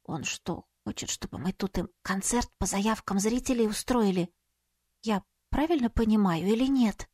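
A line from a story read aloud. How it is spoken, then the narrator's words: Whisper. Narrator (Russian): Светка прошептала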